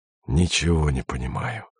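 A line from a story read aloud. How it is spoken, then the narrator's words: Desperate mutter. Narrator (Russian): пробормотал Андрей почти с отчаянием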